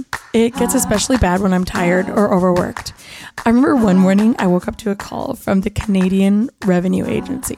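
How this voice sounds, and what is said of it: Raspy, husky voice. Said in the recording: “Today, my voice is extra raspy.”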